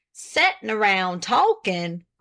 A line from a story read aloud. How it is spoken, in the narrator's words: exclaimed Mr